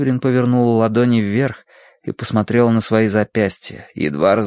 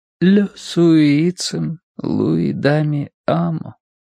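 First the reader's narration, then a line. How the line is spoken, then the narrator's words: Barely audible. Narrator (Russian): проговорила она едва слышно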